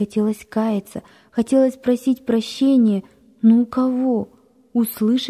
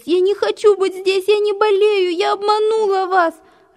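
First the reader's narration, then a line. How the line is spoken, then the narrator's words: Sobbing. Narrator (Russian): Рыдала она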